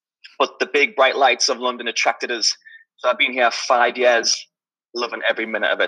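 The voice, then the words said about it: Newcastle (Geordie) English accent. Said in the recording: “As you could probably tell from my accent, I'm not from London. I'm from Newcastle.”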